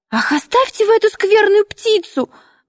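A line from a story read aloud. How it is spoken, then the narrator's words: Squeaky shout near tears. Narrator (Russian): вдруг пискливо крикнул он и весь сморщился, готовый расплакаться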